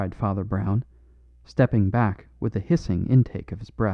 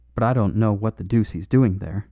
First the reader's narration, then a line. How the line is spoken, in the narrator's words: growled Harris